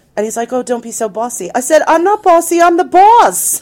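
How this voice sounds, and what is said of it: New Jersey accent. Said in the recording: “Your Jersey accent just jumped right out there.”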